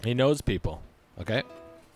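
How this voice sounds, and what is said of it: Weak Donald Trump impression. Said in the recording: “Is that your impression of Donald Trump? ... not very good.”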